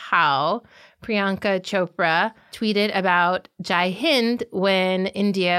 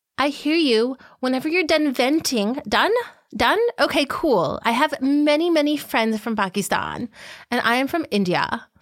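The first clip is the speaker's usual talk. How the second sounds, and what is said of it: Posh Bollywood voice imitating Priyanka Chopra. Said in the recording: “we're going to do a reenactment. I'm going to try to do my Bollywood posh voice.”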